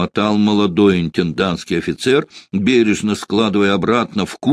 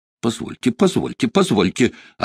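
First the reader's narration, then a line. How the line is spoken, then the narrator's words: Offended, elderly officer. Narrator (Russian): обиженно заговорил пожилой интендантский офицер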